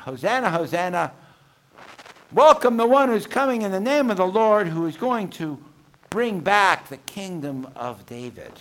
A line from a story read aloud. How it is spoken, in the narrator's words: And they shout